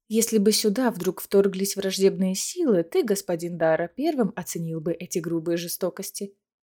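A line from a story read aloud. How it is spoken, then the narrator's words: Calm objection. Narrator (Russian): все так же спокойно возразила ему Аэлина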